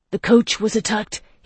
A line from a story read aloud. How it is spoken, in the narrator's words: he cried